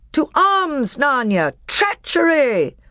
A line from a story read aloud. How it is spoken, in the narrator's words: Peter shouted